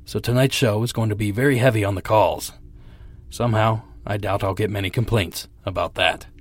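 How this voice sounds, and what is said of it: Weak, sick-sounding voice. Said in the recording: “as you may or may not be able to tell by my voice, I'm still fighting this cold ... saving what little voice I have left”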